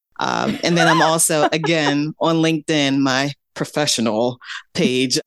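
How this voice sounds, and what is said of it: Mock serious voice. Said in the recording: “All your voices are coming out today... That's my serious voice... Very serious.”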